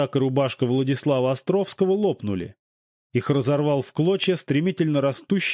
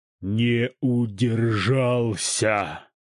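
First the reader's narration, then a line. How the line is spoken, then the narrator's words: Rasped syllable by syllable, creature. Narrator (Russian): по слогам прохрипела акулья морда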